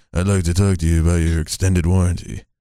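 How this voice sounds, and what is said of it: Imitates another person's voice. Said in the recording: “That was a really good impression. ... Your Johnny Depp is actually good.”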